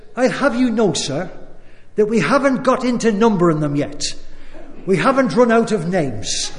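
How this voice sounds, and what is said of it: Put-on accent for a quote. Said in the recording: “What about the accent there? Wasn't that? That was good.”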